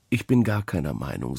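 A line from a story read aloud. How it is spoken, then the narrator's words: Plain. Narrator (German): sagte er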